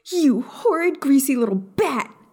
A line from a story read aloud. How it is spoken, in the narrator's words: Maya screamed